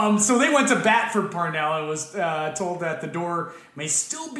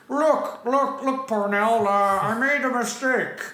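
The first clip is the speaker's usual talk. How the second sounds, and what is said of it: Lorne Michaels impression, Dr. Evil-like. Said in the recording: “my Lauren Michaels impression ... That's pretty good ... It's Dr. Evil, really”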